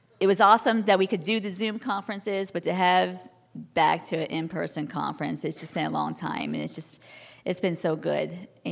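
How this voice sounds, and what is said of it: Slightly gravelly, hoarse voice. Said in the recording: “my voice is a little gravelly from the weather, I guess.”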